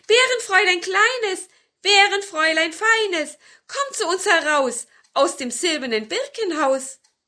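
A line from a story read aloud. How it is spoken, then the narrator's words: Witch calling repeatedly. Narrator (German): So rief die gute Hexe, rief es noch einmal und noch einmal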